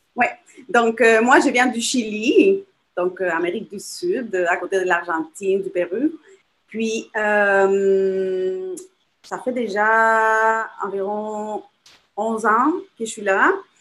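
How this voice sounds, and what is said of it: Non-native accent in French. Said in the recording (French): “c'est un accent, hein, comme moi aussi”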